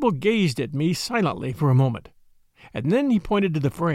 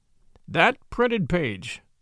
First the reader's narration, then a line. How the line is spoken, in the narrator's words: said solemnly